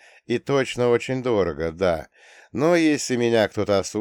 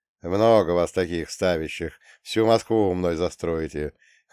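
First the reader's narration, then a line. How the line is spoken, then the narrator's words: Short laugh. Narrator (Russian): хохотнул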